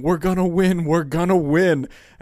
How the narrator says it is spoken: I'm literally jumping up on the stands yelling

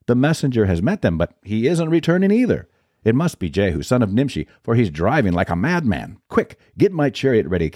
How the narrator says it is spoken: The watchman exclaimed

